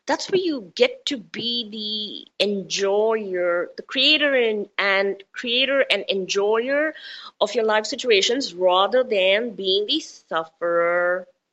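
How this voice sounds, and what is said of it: Indian accent with American touches. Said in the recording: “My accent is Indian, touched with a bit of American, touched with a bit of this and that. And so, you know, you've got all kinds of things running in my accent”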